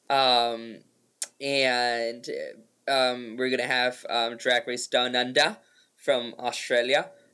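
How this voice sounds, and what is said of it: Put-on Australian accent. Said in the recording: “was that your Australian accent? ... That's my Australian accent”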